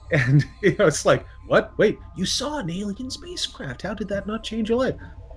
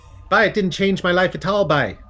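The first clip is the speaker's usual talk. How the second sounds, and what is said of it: Attempted southwestern Nova Scotian accent. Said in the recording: “I'm going to try and do a southwestern Nova Scotian accent here, which I'm going to fail miserably because I'm a city guy”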